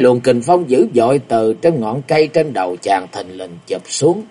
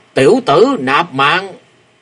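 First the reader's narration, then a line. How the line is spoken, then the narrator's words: Booming roar. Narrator (Vietnamese): có tiếng gầm vang lên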